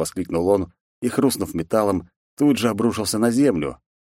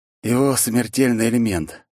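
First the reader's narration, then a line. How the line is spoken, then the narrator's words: Resigned exhale. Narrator (Russian): обреченно выдохнул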